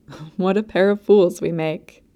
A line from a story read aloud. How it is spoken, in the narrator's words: laughed